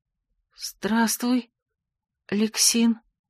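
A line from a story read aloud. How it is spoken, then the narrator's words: Quiet, disbelieving. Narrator (Russian): произнесла тихо, не веря самой себе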